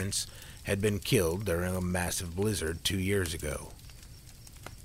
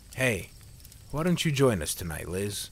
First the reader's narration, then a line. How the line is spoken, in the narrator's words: Junior asked with a chuckle